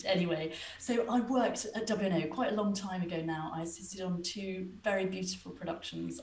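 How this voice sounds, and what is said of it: English accent. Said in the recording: “My parents are English, you might be able to hear with my accent”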